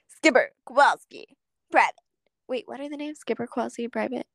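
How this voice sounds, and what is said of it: Cartoon penguin character voice. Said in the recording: “Can I do my penguins accent for them? ... This week's is the penguins from Madagascar”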